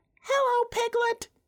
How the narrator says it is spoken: he squeaked

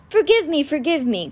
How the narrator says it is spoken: Crawlings chuckled

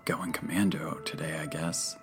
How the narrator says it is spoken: Abner whispered to me

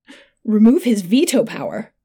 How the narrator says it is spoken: Eglin gasped, scandalized

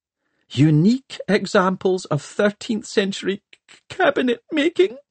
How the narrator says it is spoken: wailed Miss Plim, and collapsed in tears

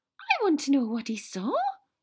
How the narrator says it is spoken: Luna said excitedly

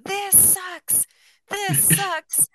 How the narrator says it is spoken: screaming

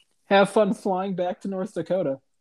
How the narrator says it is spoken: one specific guy gets in my face and yells

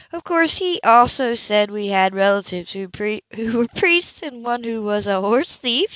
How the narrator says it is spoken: she laughed

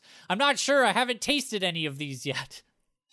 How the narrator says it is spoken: Hex shouts

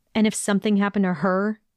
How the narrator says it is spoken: he questioned harshly

